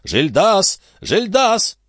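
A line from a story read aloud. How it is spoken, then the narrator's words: Repeated shouting. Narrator (Russian): Дядюшка Антифер снова закричал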